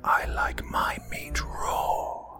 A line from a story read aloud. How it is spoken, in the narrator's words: I whispered